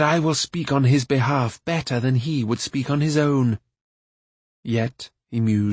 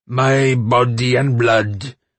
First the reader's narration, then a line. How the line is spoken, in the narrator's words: roared the voice of King Smite